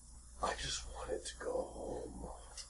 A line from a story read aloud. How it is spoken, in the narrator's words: he whispers, because he barely has a throat, he whispers